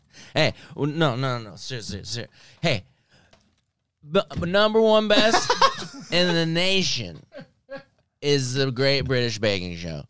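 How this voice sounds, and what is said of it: Drunk-sounding imitation of another person. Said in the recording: “my favorite drunk impression thing that you used to do is Brett ... give me a drunk Brett review”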